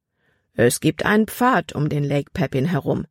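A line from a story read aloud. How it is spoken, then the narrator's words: Plain. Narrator (German): antwortete der Mann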